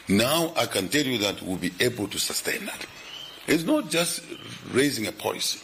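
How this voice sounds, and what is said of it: Strained, tired voice. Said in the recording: “I've been talking for a long time. My voice is a bit stressed.”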